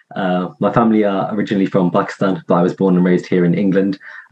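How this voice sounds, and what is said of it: Non-American, English accent. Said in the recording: “You can probably tell from the accent that I'm not from the States.”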